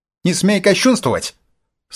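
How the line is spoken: Stern shout. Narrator (Russian): строго прикрикнул

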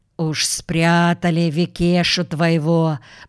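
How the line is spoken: Grumbling. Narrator (Russian): проворчал Гуляев

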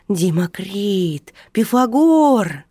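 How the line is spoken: Delighted exclamation. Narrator (Russian): Геннадий восторженно воскликнул

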